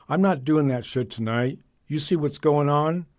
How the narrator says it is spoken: exclaim

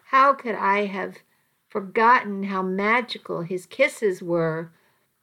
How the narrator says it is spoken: I moaned softly

